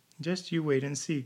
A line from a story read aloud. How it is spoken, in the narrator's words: chuckled Jack, who had come out of his quiet fit and was ready to answer chaff with chaff, to laugh and see the funny side of everything